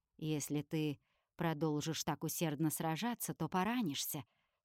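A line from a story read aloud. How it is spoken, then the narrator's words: Calm. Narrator (Russian): спокойно говорит Кассиэль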